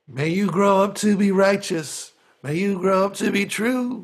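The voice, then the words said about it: Poor sung imitation of another singer. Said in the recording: “worst Bob Dylan impression I've ever done ... didn't sound like Bob Dylan, didn't sound like the tune, didn't sound like the rhythm”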